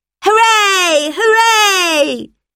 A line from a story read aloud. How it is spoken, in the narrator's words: shouted the children